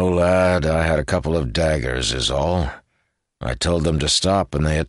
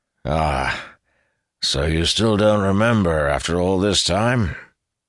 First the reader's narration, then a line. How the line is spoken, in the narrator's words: He sighed